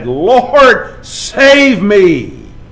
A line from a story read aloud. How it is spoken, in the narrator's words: he became frightened, and beginning to sink, he cried out and said